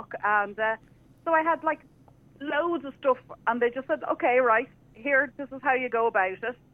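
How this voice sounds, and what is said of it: Irish accent. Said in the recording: “the Irish ... with the accent, we get away with murder”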